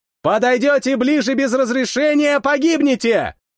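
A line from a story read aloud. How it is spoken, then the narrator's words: Shouting as loud as possible. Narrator (Russian): Крикнул как можно громче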